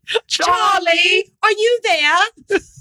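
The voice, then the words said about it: Bad put-on British accent. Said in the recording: “you got to say it with a British accent. ... You've got to say it with right? British. ... That's horrible.”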